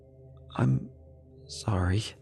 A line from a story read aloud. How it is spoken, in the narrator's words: I said in a dry, panicked voice